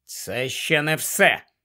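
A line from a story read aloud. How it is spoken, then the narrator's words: Grumbled. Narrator (Ukrainian): буркнув Гаррі і дещо голосніше покликав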